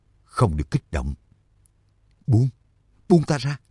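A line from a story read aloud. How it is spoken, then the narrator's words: Whisper. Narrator (Vietnamese): thì thào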